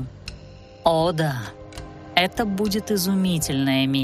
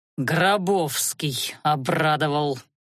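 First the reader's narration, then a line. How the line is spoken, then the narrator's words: Through gritted teeth. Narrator (Russian): процедил Анхайлик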